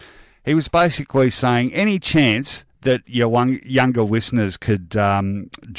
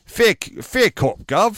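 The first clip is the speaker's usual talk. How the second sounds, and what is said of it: Pseudo-English accent. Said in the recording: “I don't know why I've lapsed into that sort of pseudo-English accent.”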